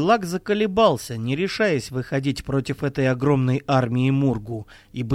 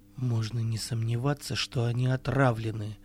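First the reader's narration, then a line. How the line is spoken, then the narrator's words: Whisper. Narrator (Russian): шепнул Керик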